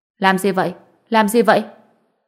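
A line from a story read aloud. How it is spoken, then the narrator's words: Angry voice from afar. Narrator (Vietnamese): giọng nói giận dữ của Tiểu Bối Bối truyền đến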